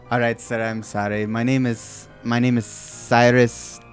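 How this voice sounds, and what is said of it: Fluctuating put-on accent. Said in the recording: “Fluctuating accent.”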